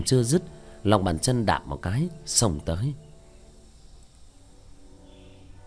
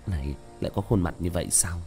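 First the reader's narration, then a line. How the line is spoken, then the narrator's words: Low muttering. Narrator (Vietnamese): Tiểu Thất thấp giọng lẩm bẩm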